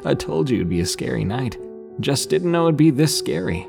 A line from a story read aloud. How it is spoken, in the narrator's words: He laughs, saying